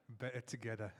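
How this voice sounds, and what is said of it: Attempted British accent. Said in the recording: “I'm going to try the British accent. ... I think you can pull a British accent. ... Not bad.”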